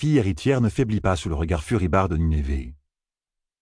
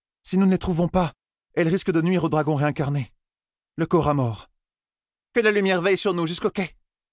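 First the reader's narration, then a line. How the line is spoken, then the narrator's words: Regent of winds exclaiming. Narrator (French): s'écria la régente des vents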